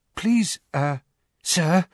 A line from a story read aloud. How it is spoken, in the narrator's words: said Parvati breathlessly